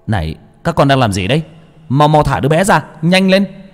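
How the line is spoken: Loud shout. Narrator (Vietnamese): lấy hơi mà hét lên

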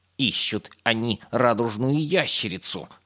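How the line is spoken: Growling. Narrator (Russian): рычала она

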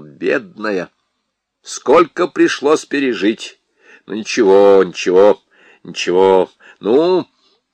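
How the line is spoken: Soothing mumble. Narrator (Russian): Лужин бормотал

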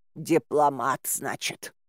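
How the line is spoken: Grumbling. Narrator (Russian): проворчала

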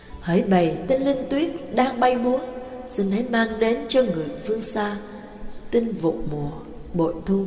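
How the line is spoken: Soft singing. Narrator (Vietnamese): Mã Cát nhẹ nhàng cất tiếng hát

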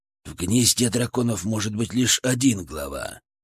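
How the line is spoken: Hissing. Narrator (Russian): прошипел Драгнар

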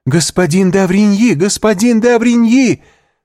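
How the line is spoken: Strangled shout. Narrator (Russian): закричала Валентина сдавленным голосом

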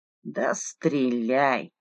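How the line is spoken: Grumbling. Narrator (Russian): пробурчала тьма

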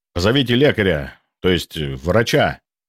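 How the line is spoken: Barking over crowd noise. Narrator (Russian): рявкнул я, перекрикивая галдеж толпы

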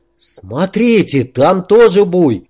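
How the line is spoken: Exclamation. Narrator (Russian): воскликнул Снежок

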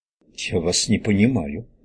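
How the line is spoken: Mumbling. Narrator (Russian): промямлил Пирсон

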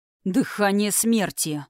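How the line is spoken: Hissing in helpless fury. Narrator (Russian): с бессильной яростью процедил Тхирайм

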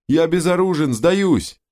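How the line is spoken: Shouting. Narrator (Russian): он закричал

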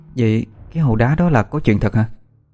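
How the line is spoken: Trembling voice. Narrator (Vietnamese): Mình lại kể tiếp với cái giọng vẫn còn run run

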